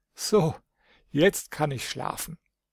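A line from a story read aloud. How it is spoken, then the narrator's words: Said laughing. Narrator (German): sagte lachend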